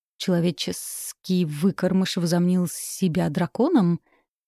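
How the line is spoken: Hissing. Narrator (Russian): прошипела туча

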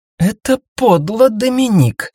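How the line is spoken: Hissed. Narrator (Russian): зашипела Мария

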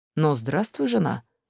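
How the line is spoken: Quiet. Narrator (Russian): тихо сказал он мне

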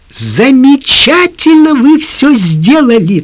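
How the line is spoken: Quick exclamation. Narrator (Russian): тотчас воскликнула она

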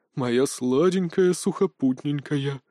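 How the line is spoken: Creepy languid voice. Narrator (Russian): жутким томным голосом приговаривал Толик

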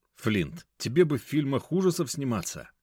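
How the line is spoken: Plain. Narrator (Russian): сказал я ему

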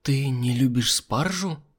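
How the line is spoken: Whisper. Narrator (Russian): прошептала Альбина

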